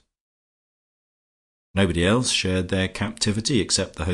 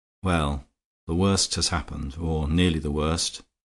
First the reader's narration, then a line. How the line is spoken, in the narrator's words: that gentleman said quietly